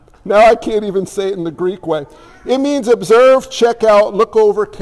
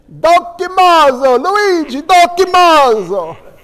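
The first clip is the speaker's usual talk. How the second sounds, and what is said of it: Greek word in Italian accent. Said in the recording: “If you say Greek with an Italian accent, it's so much better.”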